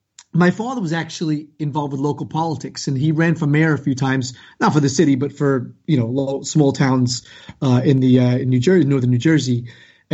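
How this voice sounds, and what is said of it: Mild New York-New Jersey accent. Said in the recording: “I have a bit of a New York, New Jersey metropolitan accent”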